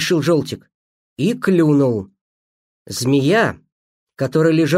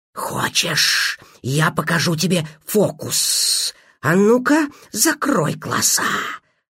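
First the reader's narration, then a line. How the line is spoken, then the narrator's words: Snake's hiss. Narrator (Russian): зашипела змея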